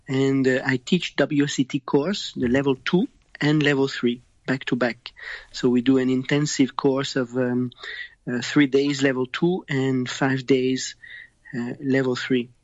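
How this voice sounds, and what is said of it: French Canadian accent. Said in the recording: “I'm from Canada and I have the French accent, but I'm from Montreal”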